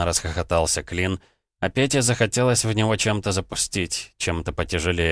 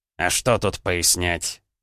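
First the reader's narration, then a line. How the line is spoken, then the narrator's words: Annoyed grumble. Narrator (Russian): с досадой пробурчал Клин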